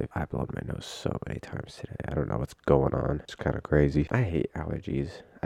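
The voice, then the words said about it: Stuffed-up, nasal voice. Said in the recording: “if I sound a little stuffed up, a little nasally in this episode. My allergies are going crazy today.”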